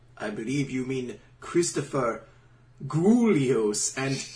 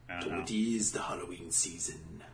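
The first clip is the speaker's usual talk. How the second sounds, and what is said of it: Spooky put-on accent. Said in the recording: “What accent is that? ... A spooky one. ... A spooky accent.”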